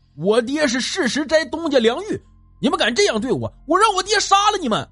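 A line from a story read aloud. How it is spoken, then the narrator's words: Loud shout. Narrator (Chinese): 大喊一声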